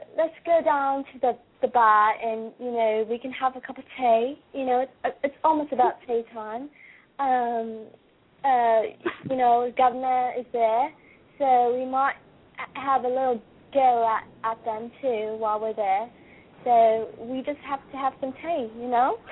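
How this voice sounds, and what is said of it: Attempted British accent. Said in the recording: “I think I can do somewhat a British accent, too. Let me try that one.”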